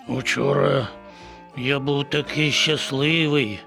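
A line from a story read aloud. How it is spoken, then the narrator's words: Sighing. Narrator (Ukrainian): зітхнув він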